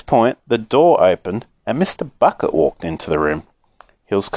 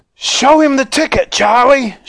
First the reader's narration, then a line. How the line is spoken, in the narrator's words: shouted Grandpa Joe, who was still dancing around the floor like a dervish